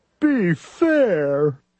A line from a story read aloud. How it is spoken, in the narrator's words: Thidwick begged with a lump in his throat